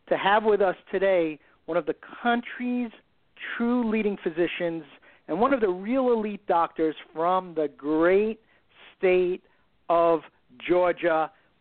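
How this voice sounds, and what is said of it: Excited, pumped-up voice. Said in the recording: “We hope absolutely you are as pumped and as excited as we are. We're super excited ... You can probably hear it in my voice”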